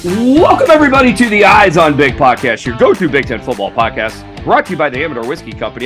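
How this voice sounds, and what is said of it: Slightly sick-sounding voice. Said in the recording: “my voice sounds a little bit better than it did the last two podcasts. I don't think I'm completely over whatever the crud is.”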